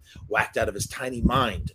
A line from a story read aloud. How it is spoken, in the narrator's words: Max muttered to himself